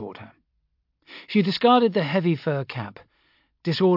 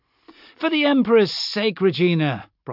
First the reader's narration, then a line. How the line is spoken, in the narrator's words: Brocklaw said, his voice amused